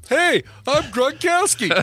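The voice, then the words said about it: Imitates another person's voice. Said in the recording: “Here's my impersonation of Gronkowski.”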